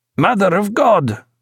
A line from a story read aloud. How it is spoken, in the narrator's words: cried Eduardo